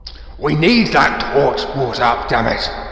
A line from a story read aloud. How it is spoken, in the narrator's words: Gandalf barks again